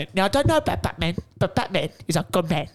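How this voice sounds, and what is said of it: Imitates another person's voice. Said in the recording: “I could do Michael Caine ... See, that's a good Michael Caine. ... It's certainly better.”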